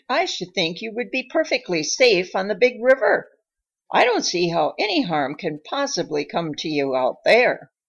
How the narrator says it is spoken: he exclaimed

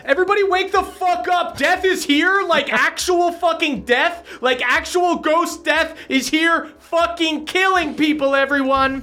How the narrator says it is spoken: she was yelling outside

